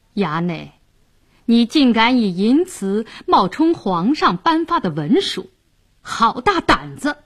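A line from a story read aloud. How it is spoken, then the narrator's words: Cold sneering. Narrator (Chinese): 白世忠冷笑道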